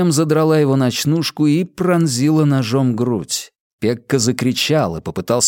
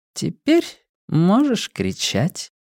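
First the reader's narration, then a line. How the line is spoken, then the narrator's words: Purring. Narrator (Russian): промурлыкала сулика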